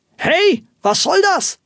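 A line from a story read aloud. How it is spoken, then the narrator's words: Astonished angry exclamation. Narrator (German): rief ein erstaunter Rufus Hornox erzürnt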